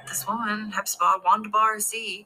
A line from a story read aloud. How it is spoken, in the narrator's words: she yelled back